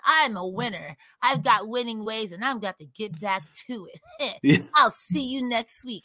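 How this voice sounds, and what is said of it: Cartoon character voice. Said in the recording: “I'm giving him the Joey Wheeler voice”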